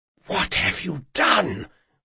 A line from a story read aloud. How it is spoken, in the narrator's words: whispered Moncrane